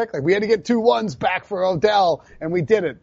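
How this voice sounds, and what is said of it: Imitates another person's voice. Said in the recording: “That was a bad Dave Gettleman accent”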